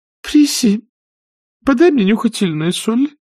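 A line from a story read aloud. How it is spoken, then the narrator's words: Faint babbling. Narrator (Russian): пролепетала тетушка Питтипэт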